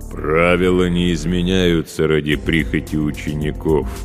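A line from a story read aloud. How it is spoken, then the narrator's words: Booming drone. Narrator (Russian): прогудел он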